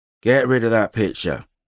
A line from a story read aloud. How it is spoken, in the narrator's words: he slurred